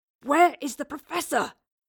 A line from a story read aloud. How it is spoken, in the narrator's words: Will gasped, the wraith holding his throat tightly in its grasp